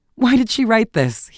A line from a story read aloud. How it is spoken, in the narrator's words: he asked, checking his laugh with supreme effort